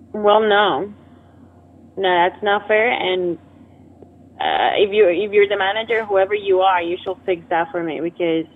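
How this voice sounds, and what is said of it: Shifting, inconsistent put-on accent. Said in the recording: “I notice your accent ... keeps changing ... You keep changing your voice ... It's just you keep changing your voice.”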